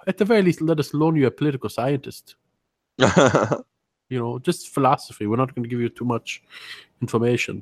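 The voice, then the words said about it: Put-on African accent sounding German. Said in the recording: “I don't know why I'm sounding German all of a sudden ... you're African. It sounds a little German.”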